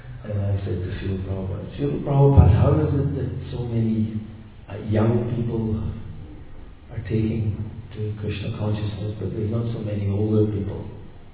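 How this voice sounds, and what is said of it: Scottish accent. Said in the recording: “in my Scottish accent, I've got a Scottish accent. It used to be a lot more Scottish in those days.”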